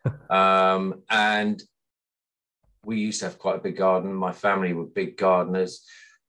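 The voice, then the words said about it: West Midlands English accent. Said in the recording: “I grew up in Sutton Coldfield in the West Midlands, as you can probably tell by my accent.”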